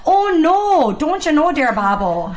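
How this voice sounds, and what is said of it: Exaggerated harsh Wisconsin Midwest accent. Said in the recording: “I'm from the Midwest, so when I hear that accent, to me, it's like nails on a chalkboard because it's so harsh. And I know when I go back home to Wisconsin, I pick up my accent like that.”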